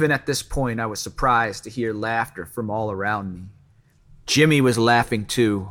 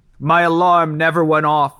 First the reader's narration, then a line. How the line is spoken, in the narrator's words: yelled, barely able to get the words out